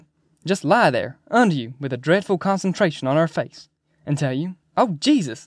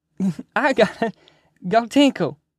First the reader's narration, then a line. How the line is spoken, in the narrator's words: the big one said, and went weaving and giggling